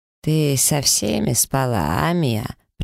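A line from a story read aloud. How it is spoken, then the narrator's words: Hissed in ear. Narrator (Russian): прошипела Дейра мне на ухо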